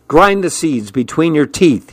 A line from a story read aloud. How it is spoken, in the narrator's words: said